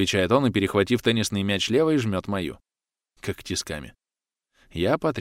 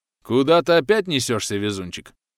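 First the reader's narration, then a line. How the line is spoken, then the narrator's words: Good-natured booming bass. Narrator (Russian): Добродушно гудит он басом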